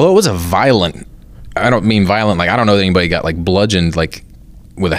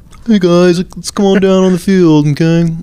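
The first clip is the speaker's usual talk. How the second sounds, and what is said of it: Imitates another person's voice. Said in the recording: “that's my impression of you. That's that's you storming the field.”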